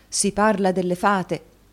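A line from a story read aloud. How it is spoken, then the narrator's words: Exclaiming. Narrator (Italian): esclamò il signor Kenwigs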